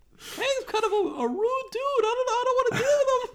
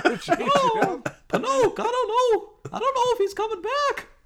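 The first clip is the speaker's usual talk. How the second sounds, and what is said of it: Jiminy Cricket cartoon character voice. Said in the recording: “doing the Jiminy Cricket voice?”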